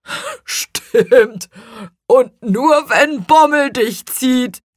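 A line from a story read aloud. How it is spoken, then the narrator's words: Laughing. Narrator (German): lachte Rübenbach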